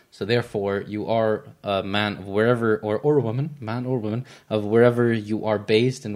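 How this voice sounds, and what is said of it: American accent. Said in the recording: “he says it with an American accent ... I just have an American accent”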